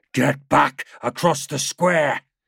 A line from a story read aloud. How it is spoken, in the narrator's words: shouted in her ear